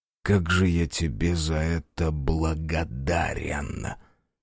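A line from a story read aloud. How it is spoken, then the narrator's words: Hiss. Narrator (Russian): Прошипел Азар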